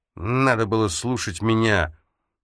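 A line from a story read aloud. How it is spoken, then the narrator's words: Lisping. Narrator (Russian): прошепелявил он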